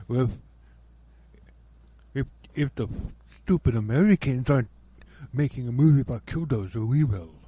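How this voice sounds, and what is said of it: Poor put-on Russian accent. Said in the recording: “That was a terrible Russian accent”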